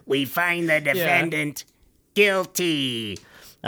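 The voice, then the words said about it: Impression of a cartoon character. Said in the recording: “that was a really good impression”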